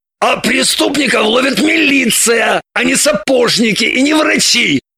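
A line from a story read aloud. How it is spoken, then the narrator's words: Barked. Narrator (Russian): рявкнул Шульгин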